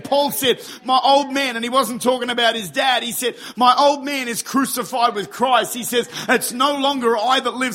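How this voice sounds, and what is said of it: Excited shouting. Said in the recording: “sorry I'm shouting, but I'm very excited”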